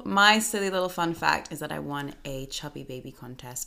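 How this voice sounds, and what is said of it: American accent. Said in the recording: “I have a fake American accent”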